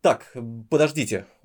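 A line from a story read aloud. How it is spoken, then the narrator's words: Irritated. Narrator (Russian): уже раздраженно произнес он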